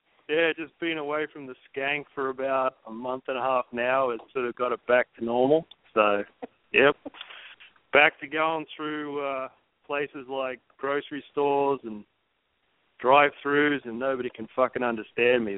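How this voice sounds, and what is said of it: Faded Australian accent. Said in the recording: “it sounds like you're all the way down in Australia ... I've got a bit of a washed out Australian accent”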